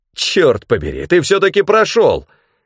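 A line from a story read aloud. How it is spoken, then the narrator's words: Exclamation. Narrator (Russian): воскликнул Бранд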